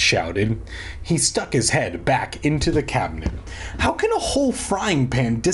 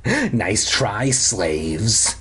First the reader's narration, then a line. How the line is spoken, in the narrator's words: he rasped